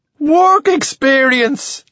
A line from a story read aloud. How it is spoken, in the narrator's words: says, laughing so hard, snot comes out of his nose